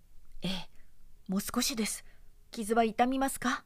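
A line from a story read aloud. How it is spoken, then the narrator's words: Straining through pain. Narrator (Japanese): と中世童子が肩の骨の砕けそうなのをじっとこらえて申しました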